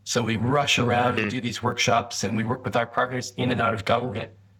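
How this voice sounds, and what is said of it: Canadian English accent. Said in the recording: “you're speaking with an accent that's clearly not Tasmanian ... brought you out from Canada”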